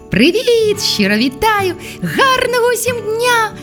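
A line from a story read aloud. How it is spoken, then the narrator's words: Cheerful chorus. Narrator (Ukrainian): Весело листіло звідусіль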